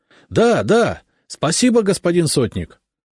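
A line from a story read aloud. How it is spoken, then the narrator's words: Joyful crowd clamor. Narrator (Russian): загомонили просители, радостно улыбаясь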